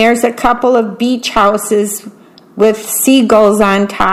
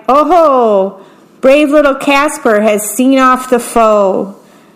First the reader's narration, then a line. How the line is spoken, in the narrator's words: Jack cried